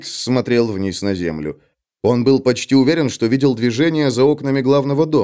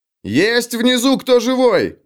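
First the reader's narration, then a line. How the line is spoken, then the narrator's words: Shouting. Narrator (Russian): закричал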